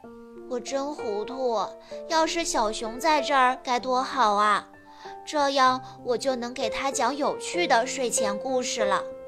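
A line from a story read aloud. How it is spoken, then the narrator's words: Sighing. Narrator (Chinese): 他叹了口气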